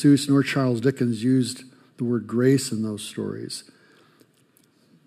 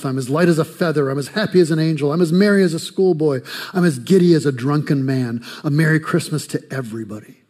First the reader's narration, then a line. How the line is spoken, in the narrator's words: shouts and says, laughing, crying in the same breath